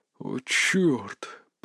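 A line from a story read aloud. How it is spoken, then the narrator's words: Whispered. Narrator (Russian): прошептал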